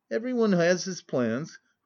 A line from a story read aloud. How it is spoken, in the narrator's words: Raskolnikov answered gloomily and impatiently